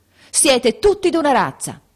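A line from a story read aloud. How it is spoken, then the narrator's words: Sudden shout. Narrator (Italian): gridò improvvisamente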